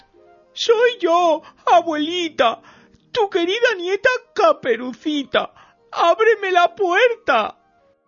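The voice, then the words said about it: Wolf imitating a little girl's voice. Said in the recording (Spanish): “dijo el lobo imitando la voz de la niña”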